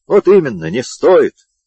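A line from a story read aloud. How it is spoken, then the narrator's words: Cheerful reporter. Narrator (Russian): веселым тоном подхватил репортер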